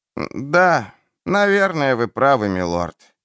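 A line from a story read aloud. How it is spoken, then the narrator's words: Sighing. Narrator (Russian): вздохнул Луис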